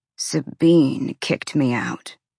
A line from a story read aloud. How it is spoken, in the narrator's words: Ethan growled